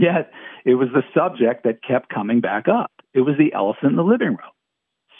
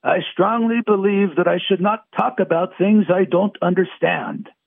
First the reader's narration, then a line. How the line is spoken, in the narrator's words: Teller told me emphatically in his thick Hungarian accent